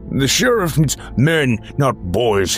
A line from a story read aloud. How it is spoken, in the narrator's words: Hubert barked